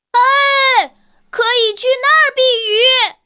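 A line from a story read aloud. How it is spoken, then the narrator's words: Shouting against the wind. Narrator (Chinese): 他迎着大风喊道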